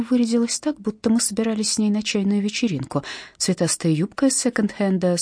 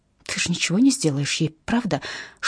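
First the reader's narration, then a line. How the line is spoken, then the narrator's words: Whispered question. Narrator (Russian): шепотом спросила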